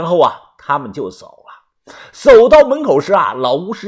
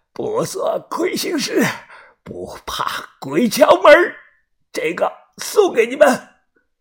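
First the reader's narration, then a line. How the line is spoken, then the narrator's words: Hoarse old voice. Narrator (Chinese): 老人……沙哑的嗓音说道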